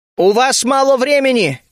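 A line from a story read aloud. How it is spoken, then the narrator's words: Shout. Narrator (Russian): крикнул я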